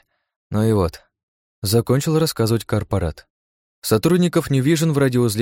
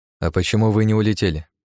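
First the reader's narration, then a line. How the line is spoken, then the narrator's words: Forced calm. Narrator (Russian): Я постарался говорить спокойно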